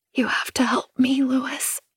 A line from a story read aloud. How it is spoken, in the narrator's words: I whisper